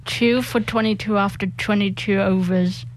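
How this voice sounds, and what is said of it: Impression of a cricket commentator. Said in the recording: “can do a pretty decent impression of legendary cricket commentator Richie Beno ... That's pretty good. That's his go-to line.”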